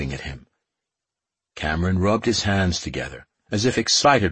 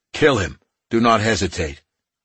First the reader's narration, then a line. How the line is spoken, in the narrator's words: Puck added, his tone sharpening